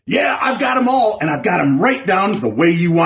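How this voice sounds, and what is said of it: Usual voice. Nothing is said of it.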